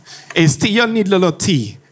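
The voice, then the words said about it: Poor put-on Caribbean accent. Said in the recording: “That was a horrible Caribbean accent. That was horrible.”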